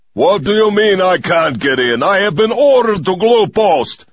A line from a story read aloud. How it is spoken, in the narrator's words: shouted in my best military obnoxious manner